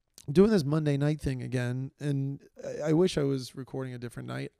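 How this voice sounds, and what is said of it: Tired, worn-out, slightly unsteady voice. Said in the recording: “my voice is a little slight bit worn out from the day, a uh, little bit tired, a little unsteady”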